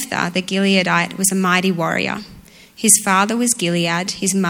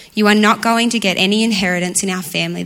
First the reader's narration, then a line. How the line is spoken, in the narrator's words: they said